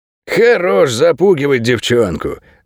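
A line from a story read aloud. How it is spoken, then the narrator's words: Dog's growl. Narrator (Russian): рыкнул широколобый овчар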